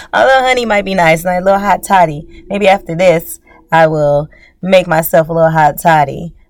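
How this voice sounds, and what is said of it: Raspier voice than usual. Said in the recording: “I don't know if you can tell my voice is a little bit more raspy than usual.”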